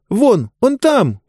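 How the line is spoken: Sharp cry. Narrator (Russian): вскрикнула Диба

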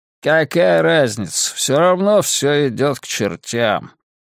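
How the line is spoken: Distant mutter. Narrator (Russian): бормотание в глубине комнаты

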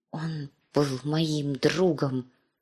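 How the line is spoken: Quiet hidden whisper. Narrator (Russian): шептала Ария в тарелку, негромко, так, чтобы ее не услышали

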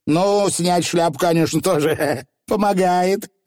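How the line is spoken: Old nanny shouting back. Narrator (Russian): открикнулась нянюшка

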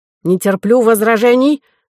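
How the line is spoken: Angry bark. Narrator (Russian): рявкнул Вольфганг

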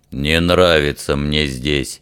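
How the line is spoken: Repeated grumbling. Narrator (Russian): в который уже раз пробурчал Фример

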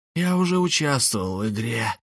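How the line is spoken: Hissed. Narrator (Russian): прошипел он

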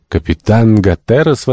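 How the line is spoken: Exclamation. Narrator (Russian): воскликнул Шандон

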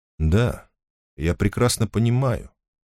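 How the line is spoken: Quiet. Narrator (Russian): тихо сказал он

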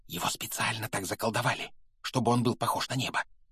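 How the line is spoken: Whisper. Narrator (Russian): прошептала опять оказавшаяся рядом Гермиона

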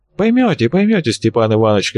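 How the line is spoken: Strange tone, promising. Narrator (Russian): каким-то непонятным тоном пообещал Венцлов

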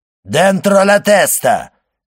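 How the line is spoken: Stern commanding shout. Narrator (Russian): крикнул строгий и властный голос

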